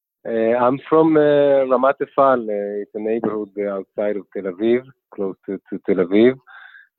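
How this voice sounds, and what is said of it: Israeli accent. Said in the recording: “an Israeli, as you'll shortly hear from his accent.”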